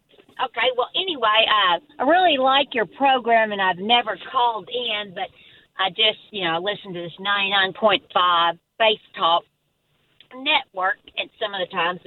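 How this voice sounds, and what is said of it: Slight Arkansas Southern accent. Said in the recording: “I can even tell you're from Arkansas by what I hear. ... Just a little.”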